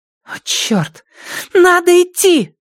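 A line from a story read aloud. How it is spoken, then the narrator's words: Shouting. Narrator (Russian): закричала Вив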